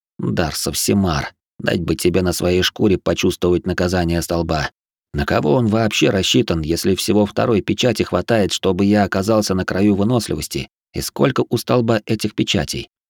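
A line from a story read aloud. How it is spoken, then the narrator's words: Hoarse, tired old man's voice. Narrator (Russian): хриплый, не похожий на себя усталый голос старика Фимрама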